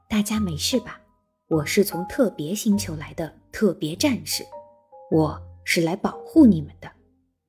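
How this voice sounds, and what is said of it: Mild, gentle voice. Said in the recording (Chinese): “用温和的声音说”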